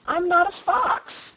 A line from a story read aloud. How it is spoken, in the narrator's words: cried Button-Bright